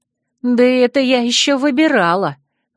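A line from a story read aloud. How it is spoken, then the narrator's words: Indignant declaration. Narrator (Russian): возмущенно заявила я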